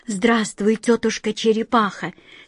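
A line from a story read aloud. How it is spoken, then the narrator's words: Quiet. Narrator (Russian): тихо сказала Астрель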